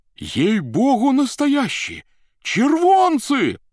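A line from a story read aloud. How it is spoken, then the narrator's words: Joyful distant shouting. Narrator (Russian): кричали с галерки радостно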